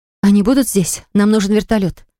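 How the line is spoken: Breathed out. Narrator (Russian): выдохнула

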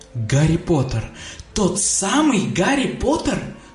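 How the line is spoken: Delighted exclamation. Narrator (Russian): с восторгом воскликнул Драко

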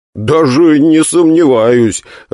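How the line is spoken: Amused laughter. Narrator (Russian): рассмеялся я от чрезвычайного усердия старого друга

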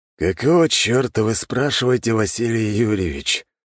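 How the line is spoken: Sighed. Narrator (Russian): вздохнул император

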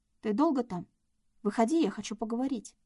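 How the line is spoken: Calm voice hiding anxiety. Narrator (Russian): спокойным голосом сказала Надя, стараясь не давать волю тревожным эмоциям

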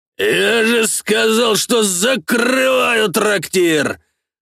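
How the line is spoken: Roared. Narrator (Russian): Взревел знакомый мне голос

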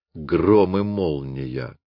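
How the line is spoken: Grumbled. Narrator (Russian): проворчал Люпен

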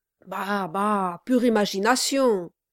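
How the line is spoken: Shouting. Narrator (French): cria Brass

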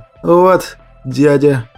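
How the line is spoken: Hoarse voice. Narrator (Russian): сказал он сиплым голосом

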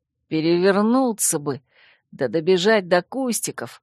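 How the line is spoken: Embarrassed grumble. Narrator (Russian): смущенно проворчал он

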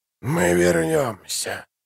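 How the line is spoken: Whispered. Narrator (Russian): прошептал он

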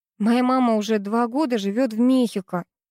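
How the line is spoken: Through gritted teeth. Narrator (Russian): сквозь зубы процедила я

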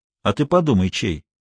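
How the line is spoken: Answered calmly. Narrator (Russian): спокойно ответил Тишков

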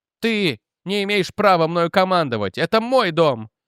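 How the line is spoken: Shrill squeal. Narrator (Russian): взвизгнула Бетти Лу

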